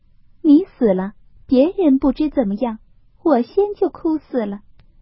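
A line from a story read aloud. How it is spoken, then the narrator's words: Laughing. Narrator (Chinese): 林黛玉笑道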